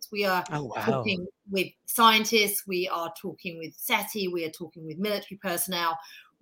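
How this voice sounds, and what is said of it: British accent. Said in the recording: “I'm obviously British, as you can tell by my accent”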